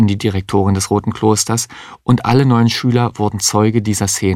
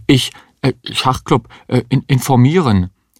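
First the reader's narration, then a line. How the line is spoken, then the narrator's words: Confused stammering. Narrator (German): Der Schüler wusste gar nicht, was er sich vorzuwerfen hatte und stammelte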